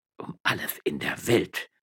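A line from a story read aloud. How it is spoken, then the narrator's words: Old man muttering after pause. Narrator (German): murmelte der Alte nach einer Weile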